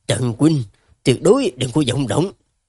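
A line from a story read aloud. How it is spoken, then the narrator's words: Sudden low sharp telepathic command. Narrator (Vietnamese): Lục Tiêu Vũ đột nhiên chuyển sang dùng truyền âm, quát khẽ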